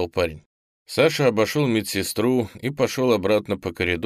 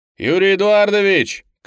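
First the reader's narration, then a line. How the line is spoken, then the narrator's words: Shouted. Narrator (Russian): крикнул Петров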